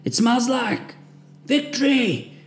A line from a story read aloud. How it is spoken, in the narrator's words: we managed to shout from the muck we were wallowed in